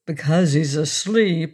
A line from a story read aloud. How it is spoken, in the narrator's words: sneered Rose Noble